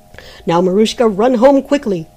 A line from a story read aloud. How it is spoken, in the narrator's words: shouted the month